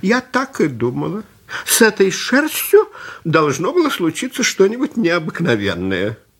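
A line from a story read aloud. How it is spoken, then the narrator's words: Old woman exclaiming. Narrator (Russian): Старушка воскликнула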